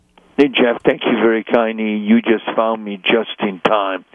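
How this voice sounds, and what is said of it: Hungarian accent. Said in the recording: “you probably all know by now, by my accent, that I'm also Hungarian”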